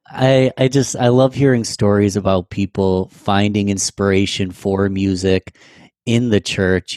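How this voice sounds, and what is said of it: Strained, failing voice. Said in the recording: “I'm losing my throat. I'm losing my voice here.”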